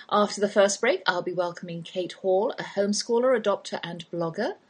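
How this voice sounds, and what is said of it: English accent. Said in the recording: “that's my English accent you're hearing”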